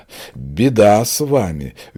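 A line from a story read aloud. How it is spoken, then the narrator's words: Sighing. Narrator (Russian): Женька вздохнула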